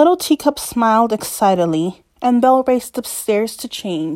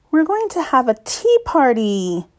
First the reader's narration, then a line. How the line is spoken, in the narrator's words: Belle exclaimed